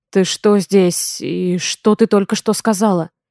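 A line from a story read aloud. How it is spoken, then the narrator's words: Strained hoarse voice. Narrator (Russian): Его голос звучит надорвано и сипло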